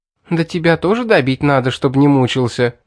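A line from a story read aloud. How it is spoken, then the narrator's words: Angry laughter. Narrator (Russian): Зло засмеялась она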